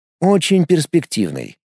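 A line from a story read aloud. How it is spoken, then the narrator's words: Calm reply. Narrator (Russian): спокойно ответил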